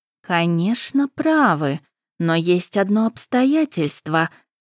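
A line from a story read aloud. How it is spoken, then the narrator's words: Soft purring. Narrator (Russian): мягко промурлыкала Пашт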